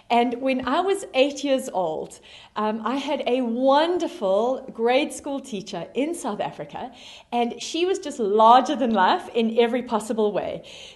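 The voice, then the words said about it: South African accent. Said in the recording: “you can hear from my accent, that I am originally from South Africa”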